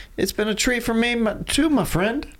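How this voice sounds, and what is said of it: Odd put-on accent. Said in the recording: “What was that accent?”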